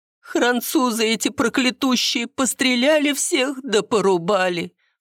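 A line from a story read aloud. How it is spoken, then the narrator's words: Sobbing. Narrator (Russian): Всхлипнула Спиридоновна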